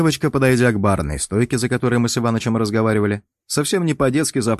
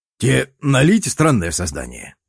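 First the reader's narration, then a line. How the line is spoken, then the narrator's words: Old man's snort. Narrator (Russian): хмыкнул старый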